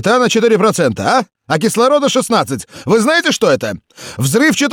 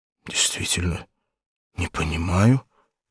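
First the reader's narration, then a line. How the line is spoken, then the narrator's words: Muttering. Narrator (Russian): пробормотал Рохан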